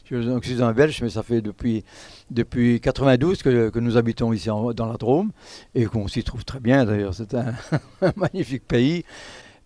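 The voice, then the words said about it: Belgian Lorraine French accent. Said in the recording (French): “pour ceux qui reconnaissent un peu mon accent, moi, je suis un peu lorrain, mais lorrain belge”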